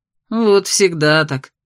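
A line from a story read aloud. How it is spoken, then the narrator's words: Grumbling. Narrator (Russian): пробурчал Лирсет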